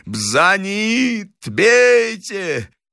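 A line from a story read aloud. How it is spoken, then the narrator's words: High-pitched shouting. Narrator (Russian): он все кричал высоким голосом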